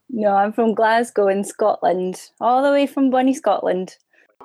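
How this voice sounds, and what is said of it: Scottish Glasgow accent. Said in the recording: “I could tell from your accent that you're not from Canada or from the States”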